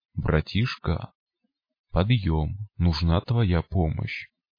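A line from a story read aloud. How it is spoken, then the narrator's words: Quiet voice. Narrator (Russian): Голова мутанта скосила глаза направо и тихонько произнесла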